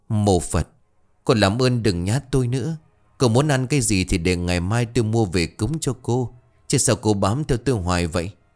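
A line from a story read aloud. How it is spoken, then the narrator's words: Terrified trembling voice. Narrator (Vietnamese): Thịnh vô cùng sợ hãi, miệng không ngừng run rẩy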